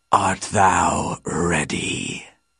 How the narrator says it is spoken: he croaked

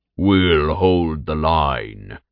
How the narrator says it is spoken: Ervos, a revenant created from a massive ogre, grunted

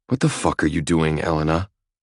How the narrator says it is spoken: I snarl

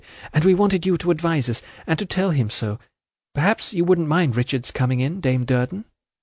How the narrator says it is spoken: said Ada timidly

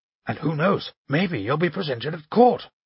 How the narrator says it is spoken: he added in a half-whisper

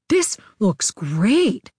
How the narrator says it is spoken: Gazzy said excitedly

